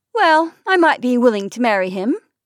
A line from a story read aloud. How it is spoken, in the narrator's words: added Sally cheerfully